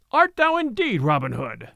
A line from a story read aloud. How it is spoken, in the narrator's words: cried he